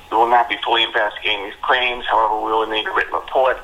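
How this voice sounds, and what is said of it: Bad fake New York accent. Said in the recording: “what a bad accent that is? ... that fake New York accent? ... It's totally fake.”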